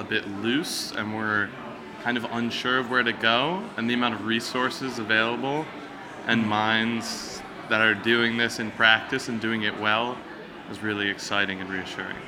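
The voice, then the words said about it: American accent. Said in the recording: “I'm picking up an accent ... I'm from America”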